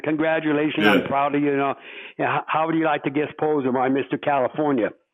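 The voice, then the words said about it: Arnold Schwarzenegger thick accent impression. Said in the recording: “Arno Schwarzenegger ... in his thick accent”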